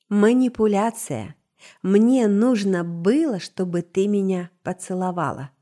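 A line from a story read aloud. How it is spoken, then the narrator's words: Necro-elf, calm reply. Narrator (Russian): спокойно ответил некроэльф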